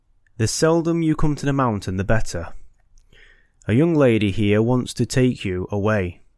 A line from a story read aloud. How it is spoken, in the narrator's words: said in a sweet and silvery voice